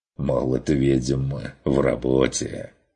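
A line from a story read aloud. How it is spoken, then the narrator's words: Snorting. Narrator (Russian): хмыкнул охотник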